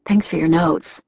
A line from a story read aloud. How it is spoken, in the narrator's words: I said softly